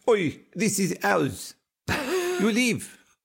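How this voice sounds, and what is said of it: Bad fake French accent. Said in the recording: “Terrible French accent. I think it turned into Spanish somewhere along the way.”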